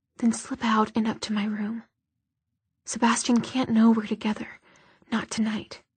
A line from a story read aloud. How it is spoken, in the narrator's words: whispered